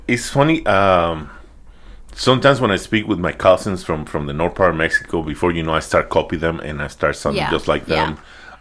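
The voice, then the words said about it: Mixed Mexican Spanish accent in English. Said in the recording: “my accent, you cannot really tell where I'm from. ... You just know I'm not from around here. You might get an idea that I'm Mexican, but other than that, not exactly from which part of Mexico ... my accent is being all over the place.”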